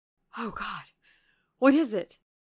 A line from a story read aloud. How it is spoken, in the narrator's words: I gasped